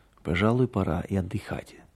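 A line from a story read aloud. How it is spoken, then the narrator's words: Low voice. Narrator (Russian): вполголоса сказал он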